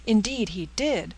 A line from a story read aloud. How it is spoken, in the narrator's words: cried Miss Peyton